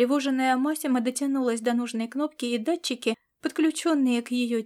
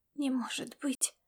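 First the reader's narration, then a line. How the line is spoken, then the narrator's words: Muttered. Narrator (Russian): пробормотала Массимо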